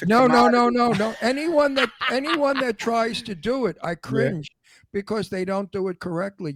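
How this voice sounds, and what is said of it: Old-fashioned Brooklyn New York accent. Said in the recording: “accent because it's an antique New York Brooklyn accent ... There's a certain sing-song”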